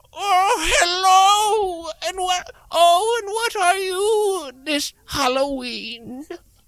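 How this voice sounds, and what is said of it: Old lady voice. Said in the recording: “do an old lady impression.”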